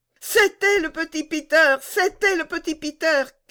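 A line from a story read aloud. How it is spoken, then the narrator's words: Shouted. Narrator (French): cria Gerda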